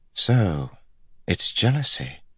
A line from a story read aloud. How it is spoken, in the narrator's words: Elaine said softly